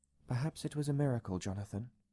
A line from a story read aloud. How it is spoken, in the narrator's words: said quietly